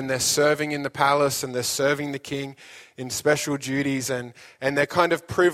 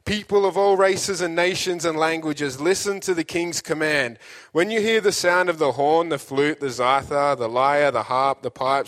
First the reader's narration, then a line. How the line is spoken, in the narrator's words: a herald shouted